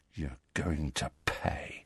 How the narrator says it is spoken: said Malfoy, in a voice barely louder than a whisper

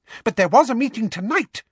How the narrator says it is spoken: said Umbridge furiously

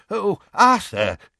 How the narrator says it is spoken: he said desperately

